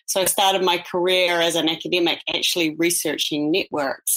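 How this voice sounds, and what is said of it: New Zealand accent. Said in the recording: “I'm a New Zealand native, as you could probably hear from my accent”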